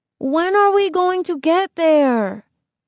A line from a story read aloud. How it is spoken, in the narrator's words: Iván whined